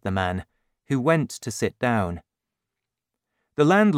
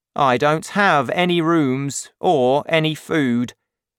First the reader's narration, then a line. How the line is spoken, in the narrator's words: said the landlord